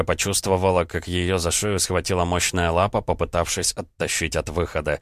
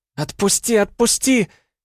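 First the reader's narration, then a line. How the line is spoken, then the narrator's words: Shrieking. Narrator (Russian): Алиса визжала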